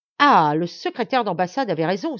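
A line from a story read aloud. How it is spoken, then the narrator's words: Exclaimed. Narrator (French): s'écria-t-il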